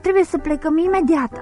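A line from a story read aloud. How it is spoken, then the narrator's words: Mother startled, frightened. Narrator (Romanian): a tresărit speriată mama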